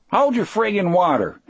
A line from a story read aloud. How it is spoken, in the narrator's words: Harry yelled back